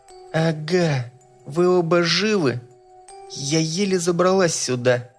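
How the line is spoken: Girl's flat, dead voice. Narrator (Russian): мертвым голосом констатировала черногубая девочка

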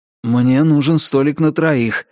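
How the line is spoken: Breathless exhale. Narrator (Russian): выдохнул Ричард

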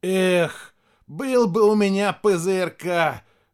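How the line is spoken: Eager exhale. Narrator (Russian): жадно выдохнул Костя

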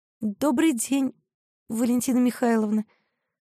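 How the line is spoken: Timid. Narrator (Russian): робко сказала Мариша

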